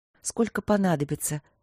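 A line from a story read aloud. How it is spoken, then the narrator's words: Softly spoken. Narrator (Russian): мягко проговорила Василина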